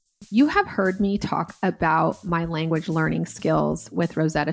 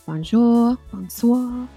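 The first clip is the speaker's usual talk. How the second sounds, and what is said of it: Weak attempt at French accent. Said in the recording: “even getting a little bit of the accent down. Not very good, but I'm getting there.”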